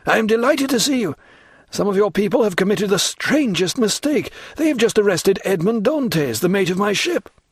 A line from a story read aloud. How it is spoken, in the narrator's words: cried he